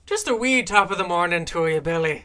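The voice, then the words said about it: Butchered put-on Irish accent. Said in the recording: “Irish accent ... I have a very butchered accent, but it is based off of hers ... fierce Irish accent”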